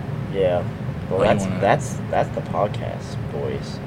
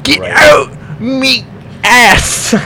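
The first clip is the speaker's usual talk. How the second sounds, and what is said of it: Shrek-style cartoon character voice. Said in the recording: “doing a Shrek voice”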